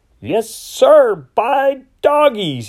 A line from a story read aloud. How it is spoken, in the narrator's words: shouted